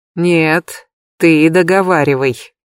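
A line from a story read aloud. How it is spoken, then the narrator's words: Through gritted teeth. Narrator (Russian): процедил Джаред сквозь стиснутые зубы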